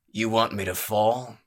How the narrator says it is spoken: growled

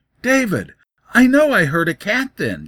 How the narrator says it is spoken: she cried

